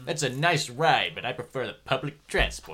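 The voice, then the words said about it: Impression of cartoon captain Zapp Brannigan. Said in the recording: “Captain Zap Brannigan would have been a brilliant voice for this. Captain Zap Brannigan. ... That's a really good impression.”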